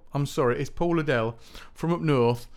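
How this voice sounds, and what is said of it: Put-on northern English accent. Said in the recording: “That's the wrong northern accent.”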